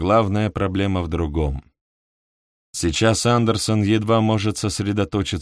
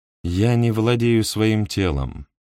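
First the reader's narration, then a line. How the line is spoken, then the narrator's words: Flat colorless voice. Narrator (Russian): ответила она бесцветным голосом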